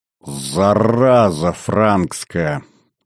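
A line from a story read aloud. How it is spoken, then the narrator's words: Growling. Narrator (Russian): рыкнул створник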